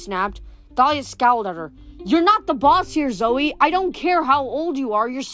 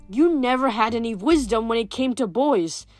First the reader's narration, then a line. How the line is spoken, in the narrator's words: Zoe growled